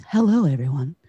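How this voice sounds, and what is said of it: Polished NPR-style radio voice. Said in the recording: “NPR voice? ... it sounds right ... that radio voice”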